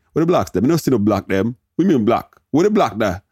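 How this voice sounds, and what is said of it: Bad put-on Jamaican Patois accent. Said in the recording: “My parents are Jamaican. ... that's the worst Patois accent I've ever heard in my life”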